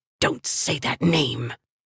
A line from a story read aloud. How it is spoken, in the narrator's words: she hissed